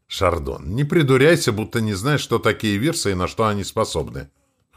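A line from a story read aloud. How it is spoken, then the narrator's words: Snort. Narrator (Russian): хмыкнул Блот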